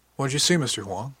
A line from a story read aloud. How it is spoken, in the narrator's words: she asked